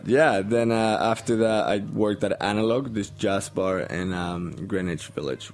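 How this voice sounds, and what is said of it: Colombian accent. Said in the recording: “is that where your accent's from? ... Colombia. ... that's not an Allentown accent?”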